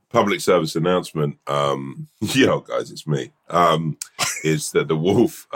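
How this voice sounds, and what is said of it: Croaky, hoarse voice. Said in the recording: “I've got a frog in my throat. I've got a bit of croaky old throat today ... new voice ... the croaky worst man”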